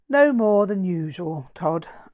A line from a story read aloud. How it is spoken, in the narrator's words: I sighed, giving in to sarcastic humour